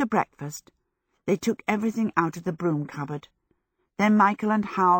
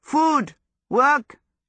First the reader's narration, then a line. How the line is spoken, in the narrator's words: he yelled